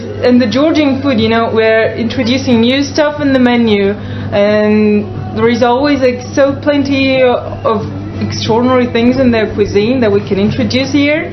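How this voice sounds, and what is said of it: Unfamiliar foreign accent. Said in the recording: “I detect an accent that's not so familiar for me.”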